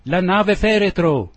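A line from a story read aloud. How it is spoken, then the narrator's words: Shouted in unison. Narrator (Italian): gridammo tutti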